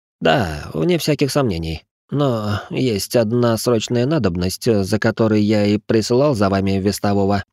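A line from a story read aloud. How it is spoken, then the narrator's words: Weary voice. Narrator (Russian): устало произнес Вульф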